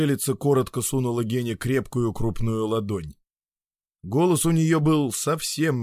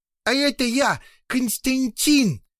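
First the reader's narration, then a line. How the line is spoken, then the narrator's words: Loud announcement. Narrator (Russian): громко заявил о себе Котя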